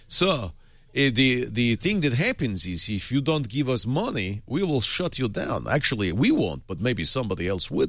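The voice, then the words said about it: Put-on Russian accent. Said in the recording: “You should do that in your Russian accent.”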